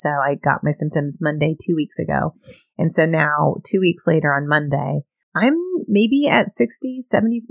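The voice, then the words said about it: Tired, worn-out voice. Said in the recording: “you can, like I said, probably hear it in my voice. I am tired right now, even as I'm talking”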